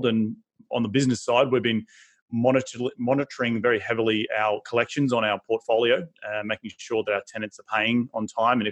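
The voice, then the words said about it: Australian accent. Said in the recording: “I'm originally from Australia, obviously by my accent you can hear it”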